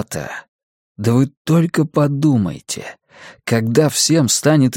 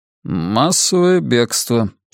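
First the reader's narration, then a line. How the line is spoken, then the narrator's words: Dry pronouncement. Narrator (Russian): сухо изрекает Чингис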